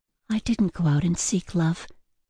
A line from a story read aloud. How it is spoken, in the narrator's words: Ella muttered, more to herself than to him